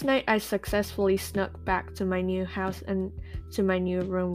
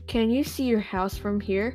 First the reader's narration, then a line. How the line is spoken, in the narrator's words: She asked